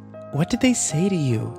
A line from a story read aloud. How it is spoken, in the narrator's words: Kimber asked nervously